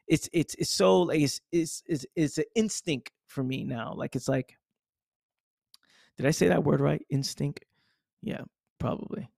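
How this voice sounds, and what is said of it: Bronx accent. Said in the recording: “Sorry, my accent, you know, growing up in the Bronx, being in the hood”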